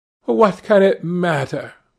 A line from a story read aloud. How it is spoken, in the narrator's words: cried Dorian Gray, laughing